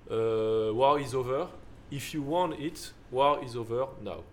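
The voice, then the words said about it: English sung with heavy French accent. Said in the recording (French): “Avec un accent français dégueulasse, je viens de dire.”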